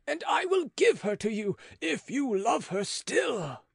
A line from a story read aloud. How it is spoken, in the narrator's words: cried Beausire